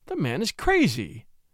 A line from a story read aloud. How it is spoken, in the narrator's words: exclaimed Mrs